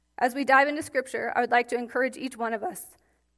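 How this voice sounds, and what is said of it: Voice cracking, throat-clearing. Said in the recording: “my voice is cracking”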